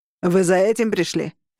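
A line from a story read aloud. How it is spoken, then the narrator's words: Crazed barking shout. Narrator (Russian): рявкнул чокнутый Роган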